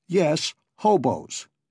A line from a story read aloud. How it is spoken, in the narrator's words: snapped